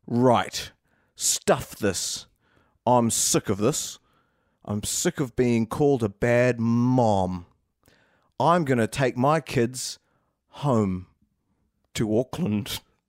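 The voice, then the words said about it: Put-on New Zealand accent. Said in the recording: “reverting to her native Kiwi accent”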